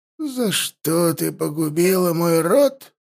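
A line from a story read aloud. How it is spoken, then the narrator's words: Quiet. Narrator (Russian): заговорил он тихо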